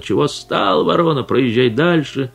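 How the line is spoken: Harsh ugly shouting. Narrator (Russian): городовой кричал отвратительным голосом на Пантелеймона

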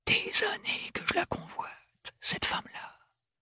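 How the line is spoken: Whispered. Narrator (French): chuchota-t-il

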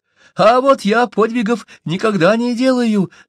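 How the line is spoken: Squeaky voice. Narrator (Russian): пищал Уленда

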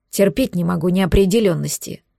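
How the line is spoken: Muttered. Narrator (Russian): пробурчал

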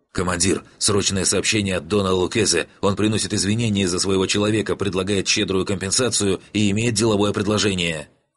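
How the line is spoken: Rapid chatter. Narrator (Russian): он затараторил

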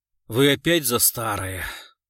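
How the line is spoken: Sighing. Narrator (Russian): вздохнул Гуров

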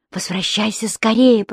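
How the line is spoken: Whisper. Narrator (Russian): прошептал он

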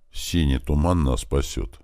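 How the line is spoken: Quiet, thoughtful. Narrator (Russian): негромко и задумчиво произнес я

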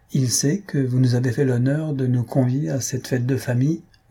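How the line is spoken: Plain. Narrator (French): demanda Jujube

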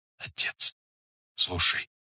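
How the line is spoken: Whisper. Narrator (Russian): прошептали губы

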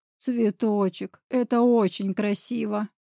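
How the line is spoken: Trembling voice. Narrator (Russian): дрожащим голосом ответил он

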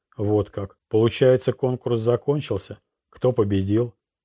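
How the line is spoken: Soft laughing. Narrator (Russian): Императрица тихо засмеялась

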